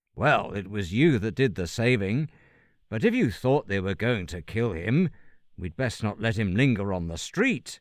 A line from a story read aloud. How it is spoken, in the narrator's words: replied his father